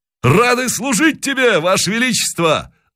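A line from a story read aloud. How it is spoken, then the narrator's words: Crowd shouting. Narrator (Russian): закричали казаки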